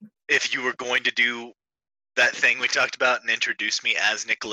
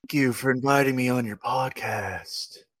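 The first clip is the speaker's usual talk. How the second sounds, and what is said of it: Tired, sleepy, slightly high-sounding drawl. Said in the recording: “I don't even know how to do Nicolas Cage ... chilling, like somewhat high ... Like a tired ... He's like Al Pacino, but he just woke up from a nap.”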